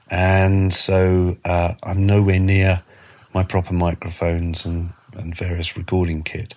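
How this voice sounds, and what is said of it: Voice sounding ill with a cold. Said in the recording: “As you can probably hear from my voice, I've not been very well. I had a bad cold, very bad cold this week.”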